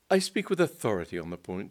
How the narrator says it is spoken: said Mr

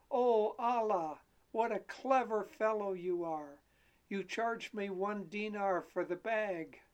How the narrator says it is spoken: exclaim

